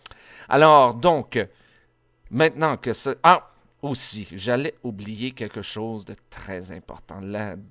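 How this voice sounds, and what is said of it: Strong accent in French. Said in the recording (French): “vous entendez, j'ai un accent très fort”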